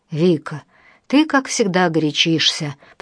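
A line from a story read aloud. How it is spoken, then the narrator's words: Conciliatory male voice. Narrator (Russian): примирительным тоном проговорил мужчина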